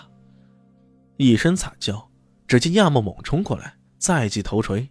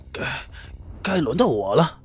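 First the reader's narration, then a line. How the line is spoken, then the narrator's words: Panting, stammering. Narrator (Chinese): 他喘着粗气，结结巴巴的说道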